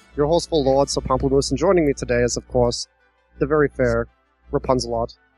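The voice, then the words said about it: Put-on accent. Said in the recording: “It's very hard to do this accent, too. I need to try to do it more.”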